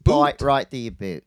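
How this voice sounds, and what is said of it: Bad put-on Australian accent. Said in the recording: “That was a bad Australian accent.”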